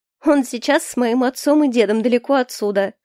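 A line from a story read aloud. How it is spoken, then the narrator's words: Snort. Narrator (Russian): хмыкнула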